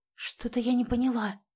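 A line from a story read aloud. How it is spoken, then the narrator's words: Whispered. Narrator (Russian): зашептала Элизабет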